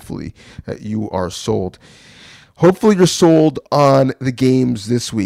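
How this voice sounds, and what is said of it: Usual voice. Nothing is said of it.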